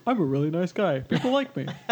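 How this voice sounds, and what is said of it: Imitates another person's voice. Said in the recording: “my Rob Dunn impression”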